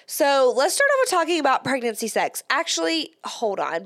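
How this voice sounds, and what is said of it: Slightly congested voice. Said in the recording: “if I sound a little congested, ... I'm getting over a cold”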